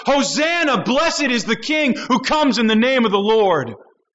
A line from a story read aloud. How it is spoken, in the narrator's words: the crowd shout